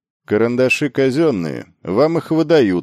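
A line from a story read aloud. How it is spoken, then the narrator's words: Cold remark. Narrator (Russian): холодно заметил инструктор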